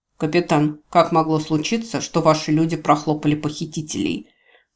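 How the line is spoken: Stern question. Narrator (Russian): строго спросил Рус

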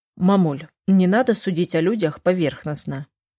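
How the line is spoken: Soft gentle. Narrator (Russian): мягко проговорил Глеб

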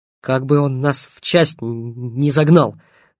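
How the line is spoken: Hiss through clenched teeth. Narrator (Russian): прошипел сквозь зубы Стасюк

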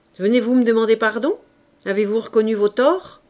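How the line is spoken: Stern old man. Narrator (French): le vieillard reprit d'une voix sévère

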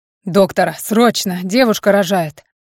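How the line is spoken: Loud urgent shout. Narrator (Russian): Громко выкрикиваю

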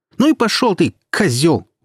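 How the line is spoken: Angry shout. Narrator (Russian): выкрикнула Наташа

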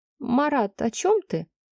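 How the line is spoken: Almost plaintive question. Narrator (Russian): Почти жалобно спросила я

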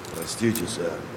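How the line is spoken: Muffled rumbling bass mutter. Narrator (Russian): забормотал он приглушенным, рокочущим басом

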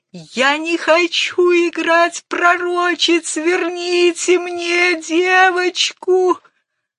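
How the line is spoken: Hoarse sobbing. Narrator (Russian): Она хрипло зарыдала

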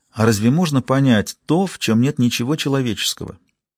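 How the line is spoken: Calm agreement. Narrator (Russian): спокойно согласился

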